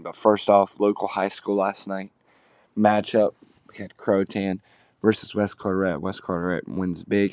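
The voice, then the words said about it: Groggy voice, sore throat. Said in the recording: “sorry for my voice this morning. Sound a little groggy. My throat kind of hurts”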